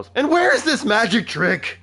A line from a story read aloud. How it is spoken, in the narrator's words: When the wood elf eats it too, the baker yells